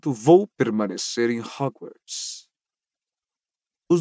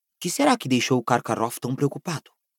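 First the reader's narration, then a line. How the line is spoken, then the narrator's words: Murmuring. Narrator (Portuguese): murmurou Rony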